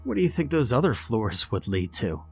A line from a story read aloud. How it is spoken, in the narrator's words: Barry joked at me, chuckling